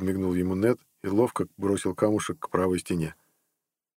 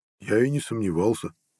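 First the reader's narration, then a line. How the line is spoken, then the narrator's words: Demon muttering. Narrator (Russian): пробормотал демон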